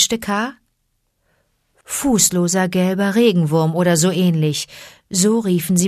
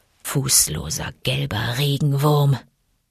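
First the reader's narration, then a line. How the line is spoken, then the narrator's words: Musing purr. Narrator (German): schnurrte Bagheera in die Borsten seines Bartes, als ob er versuche, sich zu erinnern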